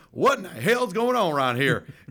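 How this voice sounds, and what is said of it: Put-on Southern American accent. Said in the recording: “a Southern accent on them because it sounds stupid ... he had a Southern Arkansas accent, Texas Arkansas accent ... why is it that Southern people are always stupid? ... you put on that voice”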